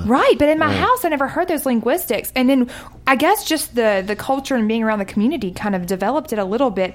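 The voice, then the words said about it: Southern US accent. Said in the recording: “she just started her accent ... I can definitely tell she's from the South ... sounded more Southern ... real twangy”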